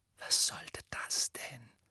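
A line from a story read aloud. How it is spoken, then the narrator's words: Frightened whisper. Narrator (German): flüsterte Ron angstvoll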